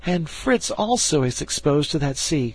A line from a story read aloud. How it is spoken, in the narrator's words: cried Ernest